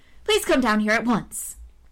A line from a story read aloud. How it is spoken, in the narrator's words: she cried